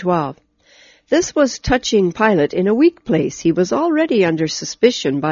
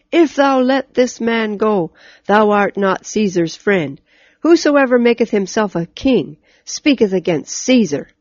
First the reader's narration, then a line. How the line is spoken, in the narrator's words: the Jews cried out